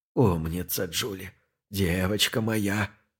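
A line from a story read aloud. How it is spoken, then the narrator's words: Blissful old man's mumble. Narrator (Russian): забормотал старик, млея от прижимающегося к его костям влажного тела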